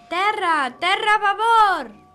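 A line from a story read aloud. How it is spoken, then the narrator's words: Shouting voice. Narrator (Catalan): una veu crida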